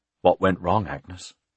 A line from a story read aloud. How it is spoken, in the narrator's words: In a defeated voice he said